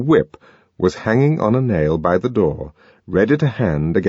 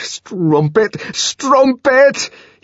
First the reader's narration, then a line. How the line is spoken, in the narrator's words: he shouted at every blow